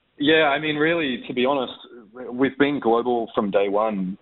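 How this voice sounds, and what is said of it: Slight Australian accent. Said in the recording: “just a slight twang ... my Australian accent”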